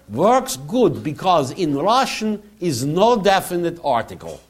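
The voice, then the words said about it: Put-on Russian accent. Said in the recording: “my best attempt at Russian accent”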